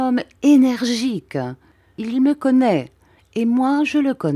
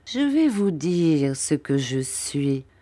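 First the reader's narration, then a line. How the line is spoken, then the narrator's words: Murmuring. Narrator (French): murmura Monsieur Creakle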